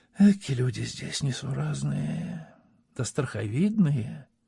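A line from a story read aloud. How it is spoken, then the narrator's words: Quiet. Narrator (Russian): тихо сказала Орловка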